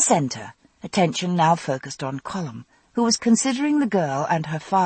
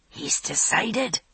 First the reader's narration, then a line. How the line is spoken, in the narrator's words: whispered Mrs